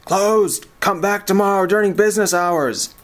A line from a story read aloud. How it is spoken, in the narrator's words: he yelled from his desk